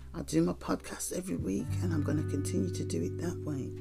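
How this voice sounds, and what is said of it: Sick, unwell-sounding voice. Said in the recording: “You can hear from my voice that I'm not feeling great”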